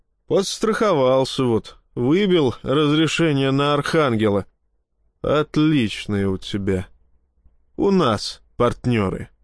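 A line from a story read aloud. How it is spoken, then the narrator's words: Grumbling. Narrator (Russian): проворчал я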